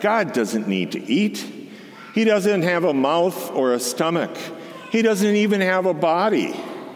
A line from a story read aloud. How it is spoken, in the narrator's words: Grandpa laughed